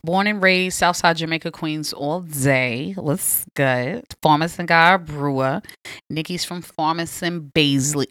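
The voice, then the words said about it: Queens New York accent. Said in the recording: “The accent.”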